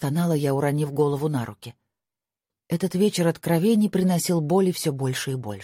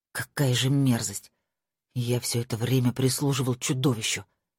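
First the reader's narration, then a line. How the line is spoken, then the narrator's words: Whisper. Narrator (Russian): прошептал Том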